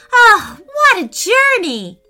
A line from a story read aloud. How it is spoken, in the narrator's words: Preston squealed with delight